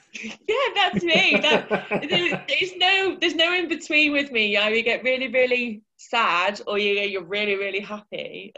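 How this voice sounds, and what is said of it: Fast excited northern English accent. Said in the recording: “I talk like this and I get really, really excited. And then you can't understand what I'm saying. Because I've got a northern accent anyway. And then you put on top of that a speed of talkness and hyponess”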